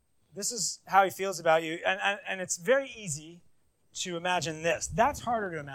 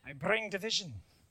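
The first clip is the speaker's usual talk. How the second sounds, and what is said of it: Put-on Irish accent. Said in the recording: “whenever you read the words of Jesus, you should use an Irish accent. It's just more fun.”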